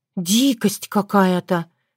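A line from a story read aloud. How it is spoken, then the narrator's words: Sighing. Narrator (Russian): вздохнула Татьяна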